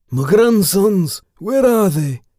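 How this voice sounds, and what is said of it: Loud Scottish-accented character voice. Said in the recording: “Came a Scottish accent ... the Scottish voice bellowed”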